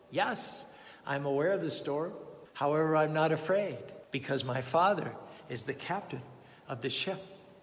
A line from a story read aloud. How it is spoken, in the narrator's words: The small lad calmly responded